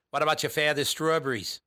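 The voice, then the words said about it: Boston or Maine accent impression. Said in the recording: “my favorite Boston accent. And it might not have been a Boston accent. It might have been Maine”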